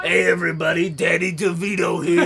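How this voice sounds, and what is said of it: Poor Danny DeVito impression, too low. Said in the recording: “It was such a horrible impression of Danny DeVito. ... I think his voice is a little higher. ... Way higher.”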